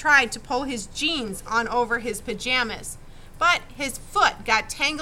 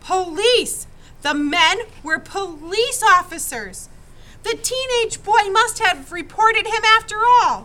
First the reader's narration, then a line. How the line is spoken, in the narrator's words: Joel gasped